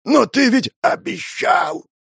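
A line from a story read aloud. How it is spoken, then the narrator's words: Hoarse wheeze. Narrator (Russian): Прохрипел он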